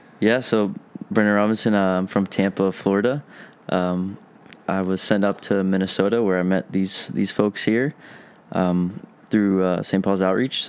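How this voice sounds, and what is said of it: Southern American drawl. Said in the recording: “that southern drawl”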